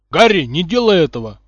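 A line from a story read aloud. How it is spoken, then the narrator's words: Shout from behind. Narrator (Russian): крикнул кто-то сзади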